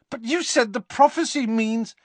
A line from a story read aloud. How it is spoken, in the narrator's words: spluttered Harry